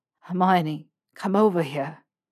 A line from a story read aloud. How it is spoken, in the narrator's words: he panted